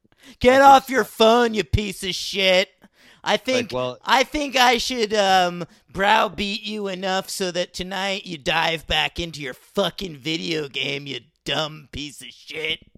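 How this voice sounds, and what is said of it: Impression of a berating store manager. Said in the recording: “It was a good manager impression.”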